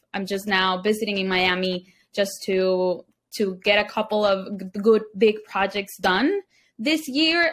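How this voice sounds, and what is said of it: Venezuelan Spanish accent in English. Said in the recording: “you have a beautiful accent. ... I am from Venezuela ... from the capital, Caracas”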